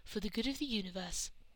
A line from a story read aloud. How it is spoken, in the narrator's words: Rose agreed solemnly